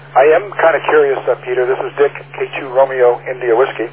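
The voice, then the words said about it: New York accent. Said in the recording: “no problem you being New Yorkers. Love the accent.”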